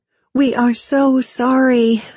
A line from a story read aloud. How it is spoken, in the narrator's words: I gasped